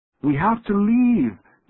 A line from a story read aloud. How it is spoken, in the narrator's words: Tashi shouted